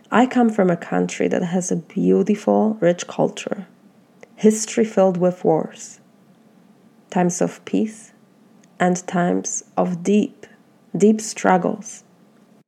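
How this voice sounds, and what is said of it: Polish accent. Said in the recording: “my Polish accent”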